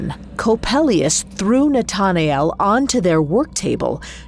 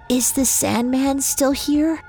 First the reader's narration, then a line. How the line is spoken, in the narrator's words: Nathanael's throat was dry as the desert, but he still managed to croak out the words